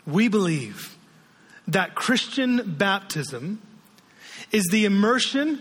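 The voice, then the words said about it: Slow, deliberate reading. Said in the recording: “read it slowly”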